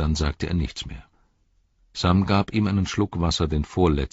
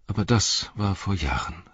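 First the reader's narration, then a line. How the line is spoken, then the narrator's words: Sighed. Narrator (German): seufzte er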